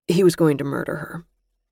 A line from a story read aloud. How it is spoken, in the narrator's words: Gus said flatly